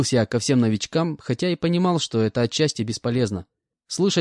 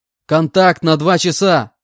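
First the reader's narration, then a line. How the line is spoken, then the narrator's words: Shouted out. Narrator (Russian): выкрикнул я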